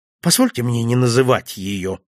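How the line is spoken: Dry curt reply. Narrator (Russian): сухо ответил я

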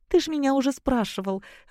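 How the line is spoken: Soft laugh. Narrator (Russian): рассмеялась тихо

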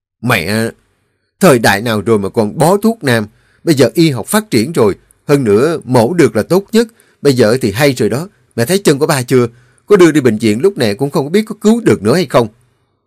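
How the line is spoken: Irritated snapping. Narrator (Vietnamese): Tuấn nghe xong liền bực bội gắt

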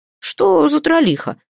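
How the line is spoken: Relieved, annoyed exclamation. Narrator (Russian): с облегчением и досадой воскликнул Фридмат Ярл

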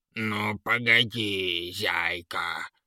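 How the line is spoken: Angry hiss. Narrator (Russian): шипел от злости Трясинник

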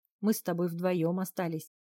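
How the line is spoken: Wry snort. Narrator (Russian): хмыкнул Мац

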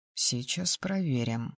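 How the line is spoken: Muttered. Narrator (Russian): пробормотал

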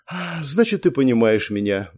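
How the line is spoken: Sighing. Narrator (Russian): вздохнула она

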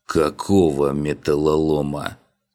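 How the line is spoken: Groaning. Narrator (Russian): простонал я

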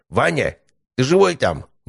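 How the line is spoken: Annoyed shout. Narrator (Russian): недовольно крикнул Анатолий Федорович

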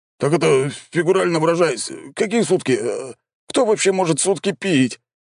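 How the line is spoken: Hopeless wail. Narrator (Russian): обреченно взвыл он

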